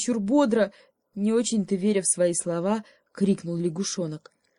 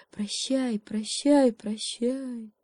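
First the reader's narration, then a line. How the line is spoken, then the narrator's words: Whole forest whispering. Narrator (Russian): И весь лес, все деревья, звери и птицы зашептали ему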